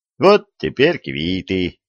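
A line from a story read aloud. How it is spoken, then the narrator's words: Satisfied snort. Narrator (Russian): Удовлетворенно хмыкнул царский сплетник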